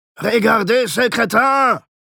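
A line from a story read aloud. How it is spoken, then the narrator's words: Shouting. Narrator (German): schrie Alberich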